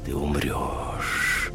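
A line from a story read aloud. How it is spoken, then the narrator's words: Hissing inside head. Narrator (Russian): продолжало шипеть в моей голове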